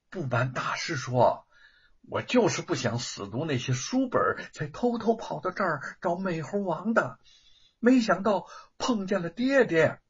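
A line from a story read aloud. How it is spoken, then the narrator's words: Soft sheepish voice. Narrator (Chinese): 吴承恩 小声的说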